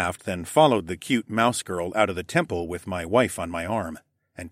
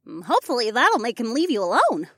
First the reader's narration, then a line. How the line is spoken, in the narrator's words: Ilara squeaked